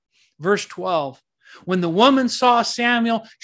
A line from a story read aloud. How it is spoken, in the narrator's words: she cried out at the top of her voice